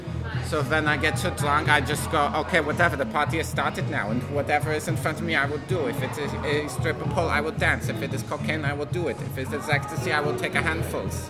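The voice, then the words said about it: Put-on German accent. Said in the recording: “Why did your accent just change? ... Why can't I get drunk and go to German accent? ... Because it doesn't sound good.”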